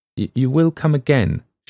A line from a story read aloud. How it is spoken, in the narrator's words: she said quickly